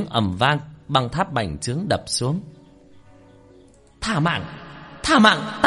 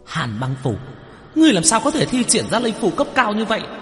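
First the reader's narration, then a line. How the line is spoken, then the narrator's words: Disbelieving shout. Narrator (Vietnamese): Tử nhãn lệ quỷ khó tin hét lên một tiếng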